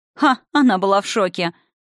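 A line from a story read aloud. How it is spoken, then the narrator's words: Indignant female snort. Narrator (Russian): возмущенно фыркнул уже знакомый Евгении женский голос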